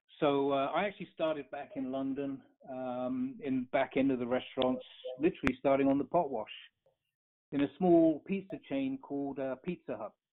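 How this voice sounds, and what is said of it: Non-American foreign accent. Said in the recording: “as you could probably tell by my accent, not native to the U.S.”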